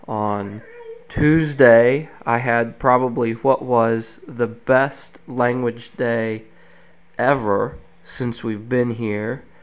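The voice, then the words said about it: Voice sounding sick. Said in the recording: “my voice sounds a little bit different this week ... I may get into a coughing fit ... recovering from being sick”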